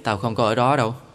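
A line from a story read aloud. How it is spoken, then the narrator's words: Sighing. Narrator (Vietnamese): Tôi thở dài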